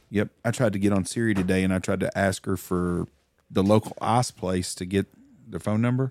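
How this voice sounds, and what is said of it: Strong regional accent. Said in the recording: “She did not quite understand my accent.”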